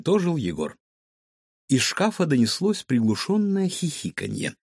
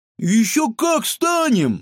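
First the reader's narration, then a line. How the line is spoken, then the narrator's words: Exclaimed. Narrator (Russian): воскликнула Светка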